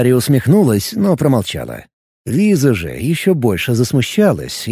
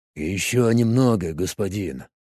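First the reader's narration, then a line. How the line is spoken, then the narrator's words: Mumbled in altered voice. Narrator (Russian): изменившимся голосом пробормотал телохранитель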